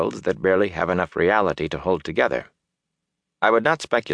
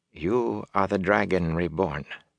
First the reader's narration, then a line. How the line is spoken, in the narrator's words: she said quietly